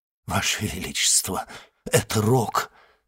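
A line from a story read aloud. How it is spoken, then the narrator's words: Muttered. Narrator (Russian): пробормотал министр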